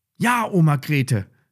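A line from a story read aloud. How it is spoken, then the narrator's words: Called out. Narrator (German): rief Lilly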